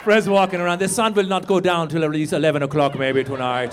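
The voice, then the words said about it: Put-on German-like accent. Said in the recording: “That was like a German accent. I don't really know a Swedish accent.”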